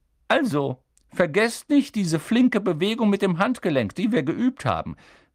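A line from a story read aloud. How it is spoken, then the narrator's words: Squeaky. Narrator (German): quiekte Professor Flitwick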